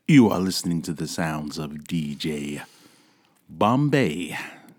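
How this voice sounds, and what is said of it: DJ-style radio announcer voice. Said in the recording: “your radio voice”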